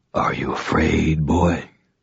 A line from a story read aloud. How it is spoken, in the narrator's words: Cassius whispered